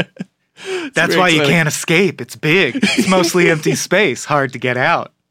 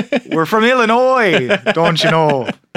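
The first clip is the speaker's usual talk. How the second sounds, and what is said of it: Put-on Minnesota accent. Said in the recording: “It's not the accent ... By way of Minnesota”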